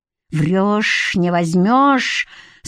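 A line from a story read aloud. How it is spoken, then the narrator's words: Through gritted teeth, to himself. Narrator (Russian): сквозь зубы сказал себе Генка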